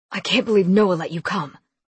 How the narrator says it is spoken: Lincoln growled in anger

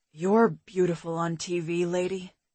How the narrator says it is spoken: he said, his voice sexy husky

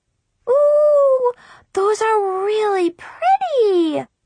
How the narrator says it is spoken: Brianna squealed

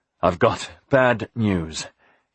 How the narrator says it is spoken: he said, panting

